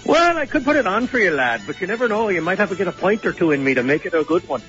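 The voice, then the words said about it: Put-on Irish accent. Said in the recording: “the Irish accent I was expecting ... Oh, there it is.”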